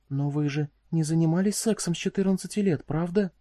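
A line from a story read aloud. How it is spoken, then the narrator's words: Whisper. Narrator (Russian): шепотом выговорила Дру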